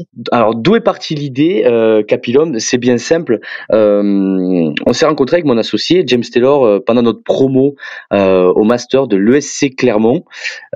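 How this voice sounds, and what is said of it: Southern French accent. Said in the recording (French): “Vous entendrez sûrement mon accent, que je suis plus originaire du sud de la France”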